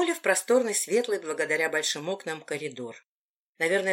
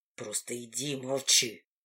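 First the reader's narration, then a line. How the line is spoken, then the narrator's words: Through gritted teeth. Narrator (Russian): сквозь зубы проговорил он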